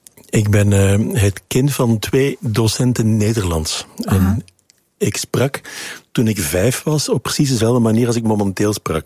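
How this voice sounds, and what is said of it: Neat Belgian Dutch accent. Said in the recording (Dutch): “ik sprak een beetje netjes naar Belgische normen ... met dit accent ... Ik werd bekakt en afstandelijk en neerbuigend gevonden”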